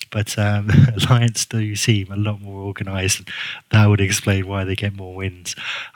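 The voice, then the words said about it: English-sounding Guernsey accent. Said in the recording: “my accent, it's kind of English. I'm not from England. I'm from a little island on the south coast of England ... the island's called Guernsey, so I'm a Guernseyman.”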